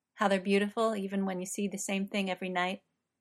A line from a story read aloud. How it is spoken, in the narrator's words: says evenly